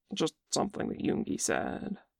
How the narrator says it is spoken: He reddens when Jin looks at him in surprise and mutters

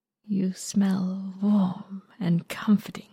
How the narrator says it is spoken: he murmurs, lips brushing against his flesh as he speaks

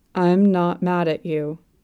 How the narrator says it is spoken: Yoshiki speaks, slowly, monotonously

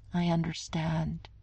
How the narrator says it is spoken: Steve said faintly

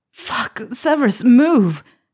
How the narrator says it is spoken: Harry yelled

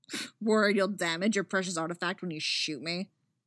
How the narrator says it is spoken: Eggsy sneers

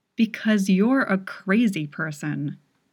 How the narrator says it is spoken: growled

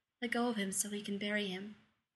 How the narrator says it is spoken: he says, speaking softly, just like you would do to a wounded animal

